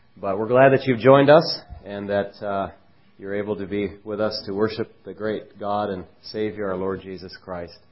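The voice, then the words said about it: Voice roughened by a cold. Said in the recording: “excuse my voice. I don't have my best radio voice today with this cold”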